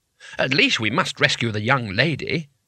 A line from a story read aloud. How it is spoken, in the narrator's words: said Twoflower firmly